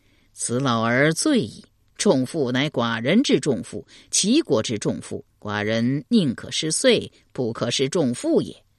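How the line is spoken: Delighted laughing. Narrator (Chinese): 齐桓公闻言大乐，笑对陈、蔡、朱三军说道

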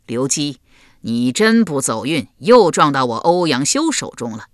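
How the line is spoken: Hearty laughter. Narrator (Chinese): 欧阳修读后，哈哈大笑

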